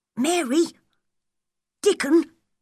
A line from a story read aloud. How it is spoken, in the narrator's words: cried